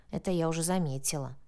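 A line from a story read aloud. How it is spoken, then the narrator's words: Grumbling mutter. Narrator (Russian): пробурчала Соня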